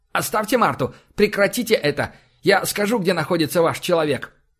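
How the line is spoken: Indignant sharp doctor. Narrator (Russian): Возмущенно доктор резко произнес

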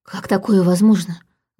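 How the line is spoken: Breathless. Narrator (Russian): выдохнула Саша

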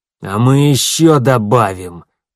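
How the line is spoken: Through gritted teeth. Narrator (Russian): процедил Хенрик

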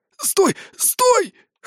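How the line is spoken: Hoarse rasp. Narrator (Russian): хрипит незваный гость

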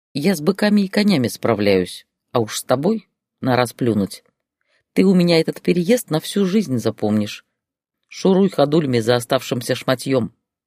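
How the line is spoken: Even, calm voice. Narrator (Russian): произнесла Катерина ровным и спокойным голосом

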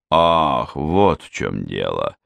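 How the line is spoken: Drawn-out, understanding, pleased. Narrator (Russian): понимающе протянул Хью, обрадованный, что загадка столь лихого наскока прояснилась

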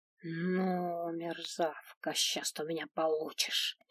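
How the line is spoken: Angry hiss. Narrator (Russian): Зло прошипела хранительница гарема

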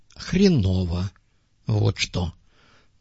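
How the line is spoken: Gruff grumble. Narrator (Russian): буркнул в ответ пастух

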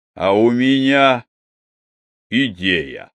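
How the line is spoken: Solemn announcement. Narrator (Russian): торжественно объявил

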